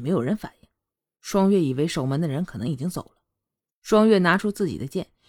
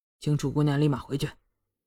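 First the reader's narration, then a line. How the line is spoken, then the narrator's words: Cold. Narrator (Chinese): 楚墨冷声道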